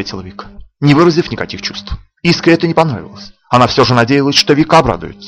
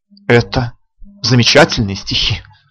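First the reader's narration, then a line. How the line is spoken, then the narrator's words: Sighing. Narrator (Russian): вздохнула Искра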